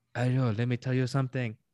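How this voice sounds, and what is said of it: Bad French-ish vampire accent. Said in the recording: “Terrible accent. ... Oh, French kind of though. Kind of French. ... More like, it was more vampire.”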